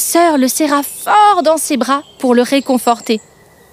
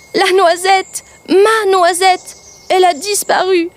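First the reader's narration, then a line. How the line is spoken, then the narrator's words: Sobbing. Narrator (French): tenta-t-il de lui expliquer en sanglots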